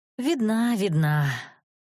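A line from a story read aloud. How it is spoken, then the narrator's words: Glum reply. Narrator (Russian): уныло отвечала я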